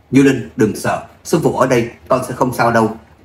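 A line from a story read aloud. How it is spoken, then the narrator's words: Shouting. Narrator (Vietnamese): Quỳ Vũ hét lên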